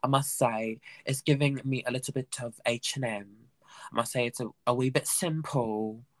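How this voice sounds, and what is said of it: Speaks in a put-on accent. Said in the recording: “Why is the accent?”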